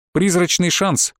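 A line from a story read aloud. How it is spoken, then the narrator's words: Snorting. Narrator (Russian): хмыкнул Оранжевый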